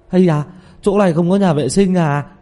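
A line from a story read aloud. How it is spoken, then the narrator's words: Sudden pained cry. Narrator (Vietnamese): Tiểu Mã chợt ôm bụng kêu lên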